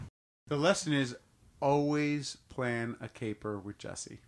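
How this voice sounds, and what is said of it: Usual voice. Nothing is said of it.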